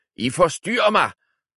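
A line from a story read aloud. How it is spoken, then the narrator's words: Wizard exclaiming. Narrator (Danish): udbrød troldmanden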